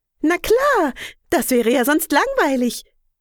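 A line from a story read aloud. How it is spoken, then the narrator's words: Cheerful bird chirp. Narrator (German): piepst Meise Marie fröhlich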